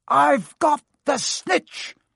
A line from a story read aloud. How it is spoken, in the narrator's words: shouted